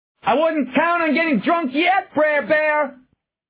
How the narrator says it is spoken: Adrenaline turned his voice more shrill than he wanted

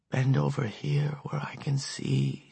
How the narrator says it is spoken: she whispered

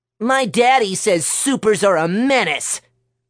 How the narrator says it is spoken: Billy yelled at her

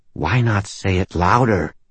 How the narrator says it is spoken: She asked me in a bitter undertone

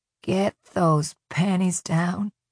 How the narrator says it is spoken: she whispered

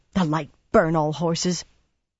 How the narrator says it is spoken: Swan gasped

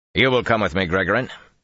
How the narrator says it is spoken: he said in a more normal voice

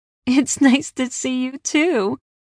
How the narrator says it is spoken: I choked, laughing

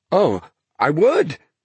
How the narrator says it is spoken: Thomas said eagerly

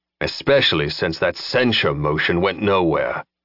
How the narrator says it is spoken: growled

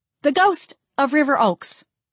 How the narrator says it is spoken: I exclaimed

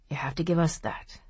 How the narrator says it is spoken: he muttered

